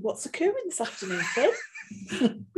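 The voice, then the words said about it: Exaggerated Welsh accent. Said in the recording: “I was going to do an really Welsh accent then.”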